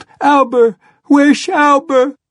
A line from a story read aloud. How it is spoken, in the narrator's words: she wailed